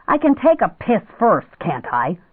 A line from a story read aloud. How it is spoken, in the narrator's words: he snapped